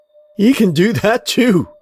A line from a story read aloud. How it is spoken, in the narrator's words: Rosalie burst into laughter